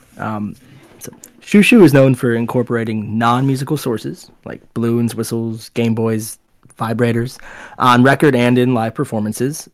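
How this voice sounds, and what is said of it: Game show host voice. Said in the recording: “my best Jeopardy host impersonation”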